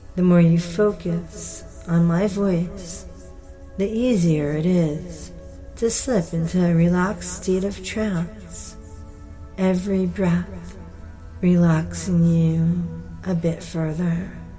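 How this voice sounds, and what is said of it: Slow, soothing, calming voice. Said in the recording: “My voice is a calming voice.”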